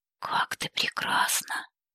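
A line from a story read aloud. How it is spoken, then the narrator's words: Low murmur. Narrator (Russian): низким голосом пробормотал он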